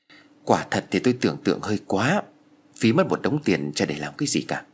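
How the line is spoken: Sighing. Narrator (Vietnamese): Thoại thở dài nói

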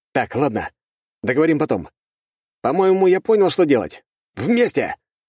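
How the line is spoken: Barking. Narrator (Russian): рявкнул я

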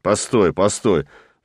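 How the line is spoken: Pleading. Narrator (Russian): взмолился пароходный человек

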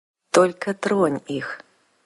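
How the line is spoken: Quiet but clear. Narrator (Russian): Тихо, но внятно сказал он

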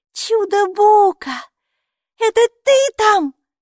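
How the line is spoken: Exclaimed. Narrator (Russian): воскликнула Майки

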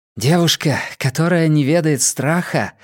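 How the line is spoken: Breathed out. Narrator (Russian): выдохнула Сулийка

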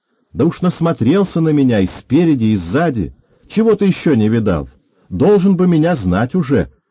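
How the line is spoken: Angry shouting. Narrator (Russian): Ласочка кричала, сердясь

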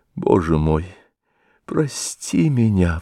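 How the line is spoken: Sobbing speech. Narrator (Russian): всхлипывая, говорила она

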